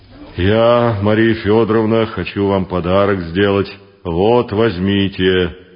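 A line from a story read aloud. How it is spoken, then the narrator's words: Deep bass voice. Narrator (Russian): пробасил он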